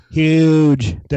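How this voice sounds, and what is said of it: Donald Trump impression. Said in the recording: “That's my own Trump impression.”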